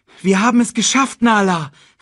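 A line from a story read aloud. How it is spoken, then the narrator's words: Calling out. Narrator (German): rief er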